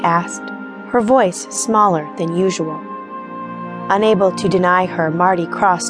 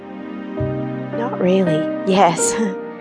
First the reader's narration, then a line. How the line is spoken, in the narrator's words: giggled